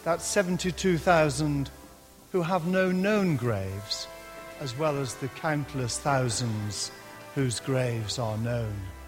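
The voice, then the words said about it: Lancashire English accent. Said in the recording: “my Lancashire accent”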